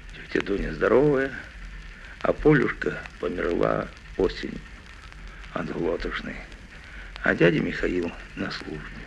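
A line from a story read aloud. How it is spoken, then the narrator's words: Quiet reply. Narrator (Russian): тихо ответил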